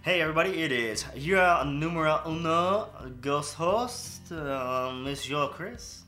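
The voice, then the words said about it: Wobbly put-on French accent. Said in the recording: “was that your French accent? ... it sounded a little Mexican, kind of wet too. ... A little ghouly. ... You're sliding in between so many”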